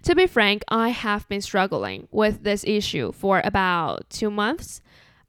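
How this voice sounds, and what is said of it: Chinese-accented English. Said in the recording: “I just can't get rid of my Chinese accent”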